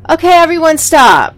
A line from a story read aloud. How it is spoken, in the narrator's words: Melinda shouted